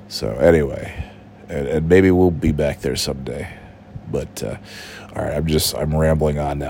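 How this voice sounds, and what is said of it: Sick-sounding voice. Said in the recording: “I'm sorry that my voice sounds like this, but you know that's the fucking COVID for you. I got the big time COVID.”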